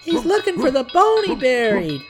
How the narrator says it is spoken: laughed Benny

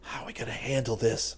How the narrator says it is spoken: He whispered back

